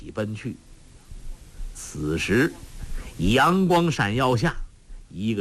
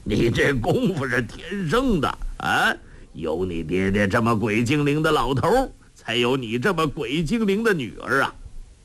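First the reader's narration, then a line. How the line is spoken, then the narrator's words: Laughing. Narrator (Chinese): 洪七公笑道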